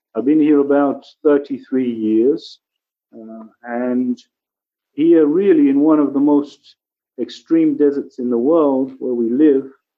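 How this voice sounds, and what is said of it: English accent. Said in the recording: “I'm originally from England, you can maybe hear from my accent.”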